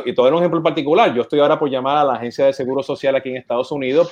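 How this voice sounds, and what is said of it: Puerto Rican Spanish accent. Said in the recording (Spanish): “Siendo puertorriqueño, llamando con mi acento”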